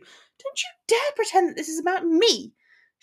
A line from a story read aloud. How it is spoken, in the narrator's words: she snapped